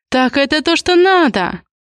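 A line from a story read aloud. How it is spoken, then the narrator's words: Exclamation. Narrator (Russian): воскликнула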